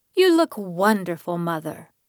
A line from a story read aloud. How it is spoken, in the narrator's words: Annie exclaimed